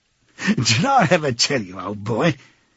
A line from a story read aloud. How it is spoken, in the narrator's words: he said, chuckling round the stem of his pipe